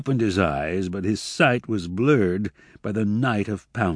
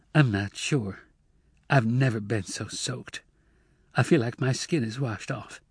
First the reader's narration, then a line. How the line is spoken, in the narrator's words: Emma said feebly